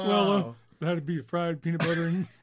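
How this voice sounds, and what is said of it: Imitates another person's voice. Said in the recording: “Is that your Elvis impression?”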